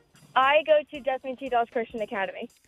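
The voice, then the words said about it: Speaking very fast. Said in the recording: “said it so fast”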